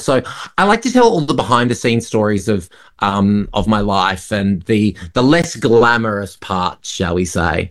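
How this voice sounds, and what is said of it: Australian accent. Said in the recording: “in Australia, obviously, your home country, because we can hear that from the accent.”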